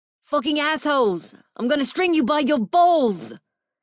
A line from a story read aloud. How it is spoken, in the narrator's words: yelled